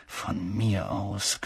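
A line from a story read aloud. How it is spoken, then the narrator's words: Growling. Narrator (German): knurrte er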